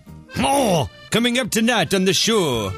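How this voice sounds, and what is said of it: Poor put-on French accent. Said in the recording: “a French voiceover ... my French accent is awful. It's one of the worst that I do.”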